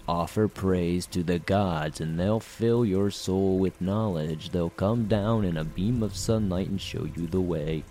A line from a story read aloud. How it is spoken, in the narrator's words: A gaunt fellow cleared his throat and recited in a dull monotone